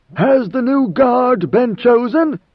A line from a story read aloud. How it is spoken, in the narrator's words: In a stentorian voice, Leto asked